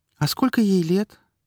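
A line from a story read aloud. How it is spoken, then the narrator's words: Thin high squeak. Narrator (Russian): тоненьким голоском пропищала Вика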